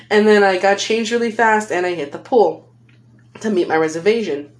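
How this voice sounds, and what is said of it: Californian accent. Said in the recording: “I feel like I said reservation in a really weird way earlier. That's just my accent, man. I'm a California girl.”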